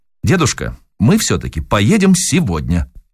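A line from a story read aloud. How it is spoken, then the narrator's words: Sharp. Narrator (Russian): резко сказала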